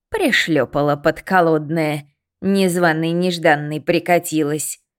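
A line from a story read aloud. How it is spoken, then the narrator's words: Hiss in old woman's voice. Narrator (Russian): прошипела матрёша прабабкиным голосом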